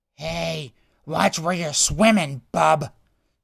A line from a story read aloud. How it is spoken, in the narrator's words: Jai growled at Savoray